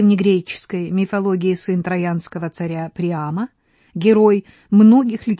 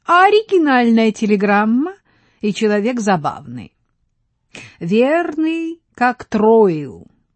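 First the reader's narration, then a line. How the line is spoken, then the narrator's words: Cheerful laughing woman. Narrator (Russian): Княгиня рассмеялась и весело сказала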